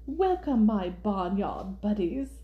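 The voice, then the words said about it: Poor attempt at British accent. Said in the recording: “No, that's not a good British accent.”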